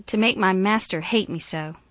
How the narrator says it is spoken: cried

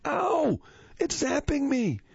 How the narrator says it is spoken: all of a sudden shouted

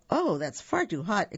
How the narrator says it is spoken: exclaimed Goldilocks

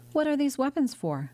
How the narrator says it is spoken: the young man exclaimed

